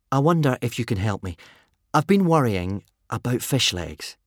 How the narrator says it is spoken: said Hiccup

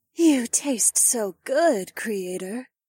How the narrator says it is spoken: the android said in a tone that almost sounded like a sigh

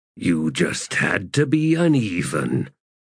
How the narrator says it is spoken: growled Balm in a low voice

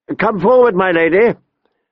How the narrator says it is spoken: he called out, smiling

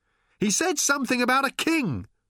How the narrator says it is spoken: shouted Arthur in return, holding on desperately

